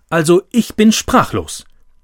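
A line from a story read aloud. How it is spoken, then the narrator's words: Calling out. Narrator (German): rief Tante Olga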